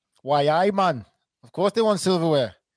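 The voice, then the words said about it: Put-on Geordie accent. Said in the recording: “That's my Geordie accent”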